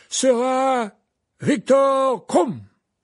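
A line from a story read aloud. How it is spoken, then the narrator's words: Loud clear announcement. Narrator (French): annonça-t-il d'une voix forte et claire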